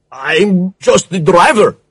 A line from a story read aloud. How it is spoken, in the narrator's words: stammered